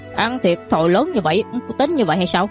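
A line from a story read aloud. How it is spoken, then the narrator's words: Young man, exhaling angrily. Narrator (Vietnamese): một nam tử tuổi trẻ thở hắt ra, giận dữ rồi nói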